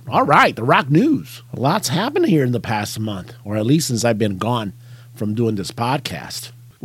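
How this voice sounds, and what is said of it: Rough, failing raspy voice. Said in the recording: “My voice is kind of like uh, heading south on me ... sound like a car whose muffler's about to go out”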